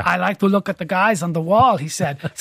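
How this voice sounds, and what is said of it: Weak Austrian-accented celebrity impression. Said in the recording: “bad Arnold Schwarzenegger impression”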